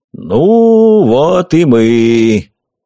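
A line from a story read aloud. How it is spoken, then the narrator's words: Deep booming voice. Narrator (Russian): пробасил Дед Мороз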